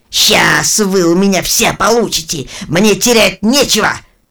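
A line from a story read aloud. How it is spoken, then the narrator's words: Loud cursing. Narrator (Russian): громко матерился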